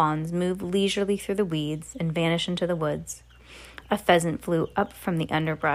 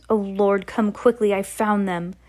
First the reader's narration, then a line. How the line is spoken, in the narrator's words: A man shouted to the others